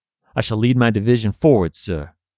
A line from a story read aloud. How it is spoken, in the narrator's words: The general with flowing locks firmly answers